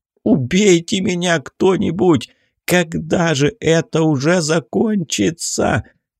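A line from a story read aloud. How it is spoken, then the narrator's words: Moaning. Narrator (Russian): простонал Арсений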